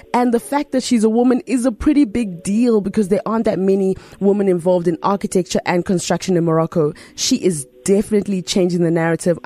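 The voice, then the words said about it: Excited, enthusiastic voice. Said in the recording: “I'm so excited. You can hear it in my voice”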